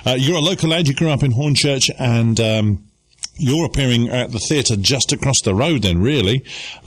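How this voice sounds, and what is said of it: Hoarse, croaky voice. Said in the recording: “I've got a frog in my throat.”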